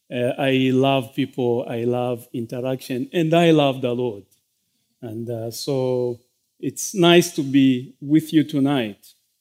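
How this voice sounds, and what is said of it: Non-American, British-style English accent. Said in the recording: “I hope you are able to get my accent. We were more exposed to the British kind of English, so I'm still learning the American way of pronouncing certain words.”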